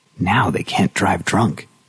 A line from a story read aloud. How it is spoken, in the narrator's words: Linda had whispered with satisfaction